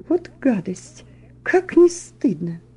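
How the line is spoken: Indignant whisper. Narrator (Russian): негодование, и полная дама прошептала

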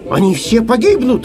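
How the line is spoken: Shout. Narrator (Russian): закричал Самоделкин

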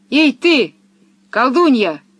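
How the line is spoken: Shouted. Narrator (Russian): крикнул он Пеппи

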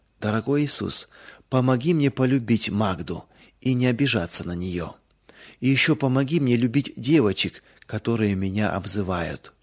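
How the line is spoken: Sincere whisper. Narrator (Russian): искренне шептала

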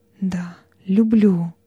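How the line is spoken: Meek timid whisper. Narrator (Russian): голосом смиренным и робким прошептала

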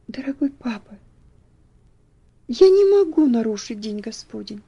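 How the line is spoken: Quiet, tender. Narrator (Russian): ответила она тихим, нежным голосом

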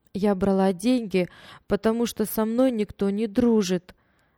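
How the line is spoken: Trembling girl's voice. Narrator (Russian): дрожащим голосом объяснила девочка

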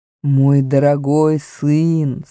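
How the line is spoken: Plain. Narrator (Russian): сказал Аслан

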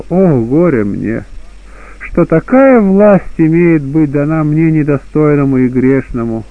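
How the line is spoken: Resigned sigh. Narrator (Russian): Блаженный, догадавшись, что имеет с ним быть, вздохнул и сказал

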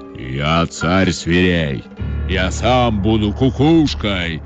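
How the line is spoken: Menacing roar, lion. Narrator (Russian): грозно зарычал лев

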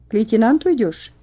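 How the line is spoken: Plain. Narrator (Russian): спросил тот

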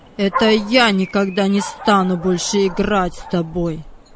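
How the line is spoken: Cold. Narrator (Russian): холодно сказал Владик

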